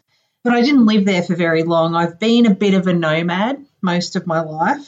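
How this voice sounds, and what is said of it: Australian accent. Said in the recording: “you officially win the Best Accent Award... I'm originally from a town in the very, very north of Australia”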